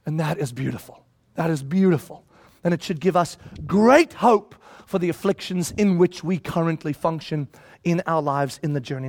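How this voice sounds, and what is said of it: Loud, excited shouting. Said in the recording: “I'm shouting way too much, but I'm really excited”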